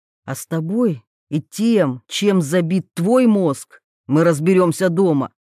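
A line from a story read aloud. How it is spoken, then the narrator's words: Angry interruption. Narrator (Russian): Зло обрывает он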